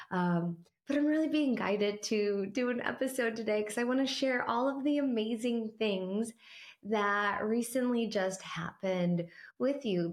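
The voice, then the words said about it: Hoarse, weakened voice. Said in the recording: “As you could probably tell, I lost my voice.”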